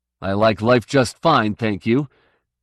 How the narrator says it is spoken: Cantling snapped

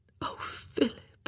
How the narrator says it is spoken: she whispered

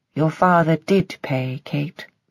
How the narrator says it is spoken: she said, and her voice held a melancholy certainty

